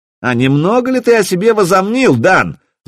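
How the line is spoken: Angry yelling. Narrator (Russian): заорал Пижон

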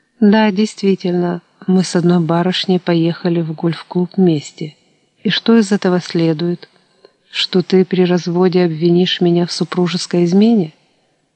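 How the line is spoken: Calm voice. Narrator (Russian): уже спокойным голосом докончил

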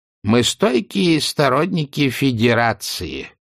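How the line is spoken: Ironic nasal mimicked accent. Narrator (Russian): иронически прогнусавила бабушка, подражая выговору северян

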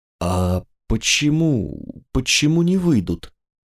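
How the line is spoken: Puzzled question. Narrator (Russian): Сэр Джулиан спросил непонимающим тоном

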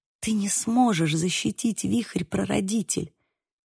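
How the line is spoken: Whispered. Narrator (Russian): прошептала я

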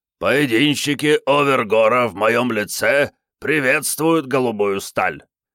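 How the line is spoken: Hoarse bark. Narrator (Russian): хрипло рявкнул Биккарт

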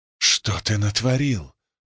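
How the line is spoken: Hissed. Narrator (Russian): прошипел я

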